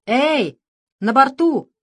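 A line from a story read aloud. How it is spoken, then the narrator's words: Proud shout, parrot. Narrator (Russian): гордо крикнул попугай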